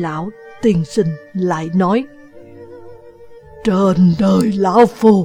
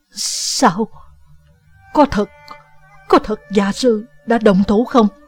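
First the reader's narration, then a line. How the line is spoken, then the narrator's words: Trembling question. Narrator (Vietnamese): Địch Vân giọng nói run run hỏi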